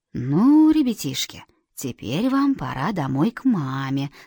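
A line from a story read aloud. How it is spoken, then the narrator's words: Gentle, badger. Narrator (Russian): сказал барсук ласково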